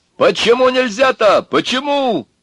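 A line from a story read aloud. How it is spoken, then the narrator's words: Yelling into phone. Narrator (Russian): орал в трубку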